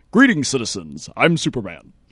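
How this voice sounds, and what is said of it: Superman impression. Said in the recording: “I'll try to do a Superman impersonation here real quick”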